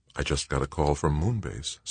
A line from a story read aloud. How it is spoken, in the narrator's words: said Joanna